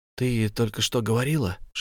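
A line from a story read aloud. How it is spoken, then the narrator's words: Whispered. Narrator (Russian): шепнул я Мартине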